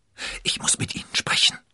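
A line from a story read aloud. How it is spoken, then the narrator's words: Whisper. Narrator (German): flüsterte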